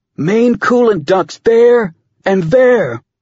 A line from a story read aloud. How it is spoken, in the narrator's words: Tom shouted over Team Com